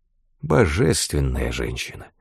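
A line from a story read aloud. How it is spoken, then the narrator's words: Low voice. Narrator (Russian): сказал он вполголоса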